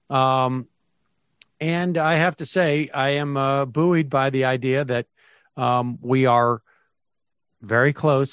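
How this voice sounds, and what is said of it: Weak, recovering hoarse voice. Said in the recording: “my voice is returning ever so slightly... I have not cleared out all the pollen that apparently has been resting in my throat... voice is getting a little stronger”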